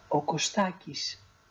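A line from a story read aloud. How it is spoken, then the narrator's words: Very quiet reply. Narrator (Greek): η Μαγκαλένα αποκρίθηκε σιγά, μα πολύ σιγά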